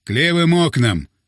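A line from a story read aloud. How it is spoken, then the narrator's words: Shout. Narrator (Russian): крикнул Сергей Александрович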